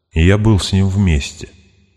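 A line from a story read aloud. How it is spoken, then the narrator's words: Unnaturally calm. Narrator (Russian): неестественно спокойно произнес Гаарп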